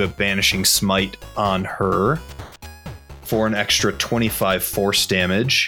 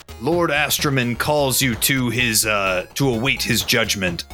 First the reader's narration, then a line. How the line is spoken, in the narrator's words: he yells out